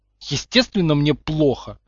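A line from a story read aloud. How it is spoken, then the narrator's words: Irritated. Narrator (Russian): раздраженно откликнулся тот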